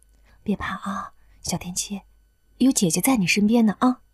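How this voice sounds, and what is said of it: Soft, quiet, gentle girlish voice. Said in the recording (Chinese): “他小声安慰着小田七 ... 女孩子特有的绵软嗓音”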